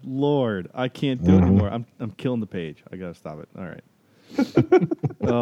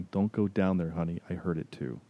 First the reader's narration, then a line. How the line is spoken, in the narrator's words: you hear a whisper from the closet saying